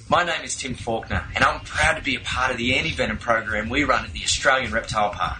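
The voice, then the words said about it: Delightful-sounding accent. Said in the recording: “with that accent, doesn't everything just sound delightful?”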